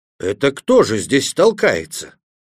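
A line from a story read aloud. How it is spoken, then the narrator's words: Screaming at full strength. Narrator (Russian): Гек завопил, что было мочи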